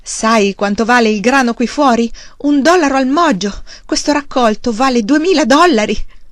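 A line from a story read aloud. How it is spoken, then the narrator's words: Child shrieking. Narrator (Italian): Il bambino strillava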